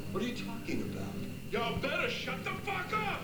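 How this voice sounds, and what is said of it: Screaming. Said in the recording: “Why are you screaming”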